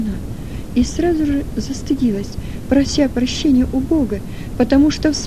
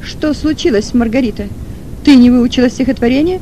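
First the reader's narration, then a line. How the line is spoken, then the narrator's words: Stern question. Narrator (Russian): спросила учительница и строго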